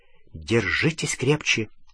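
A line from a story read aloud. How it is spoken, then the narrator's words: Whisper. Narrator (Russian): Она прошептала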